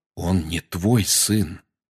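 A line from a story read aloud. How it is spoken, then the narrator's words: Quiet. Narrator (Russian): тихо сказал Сириус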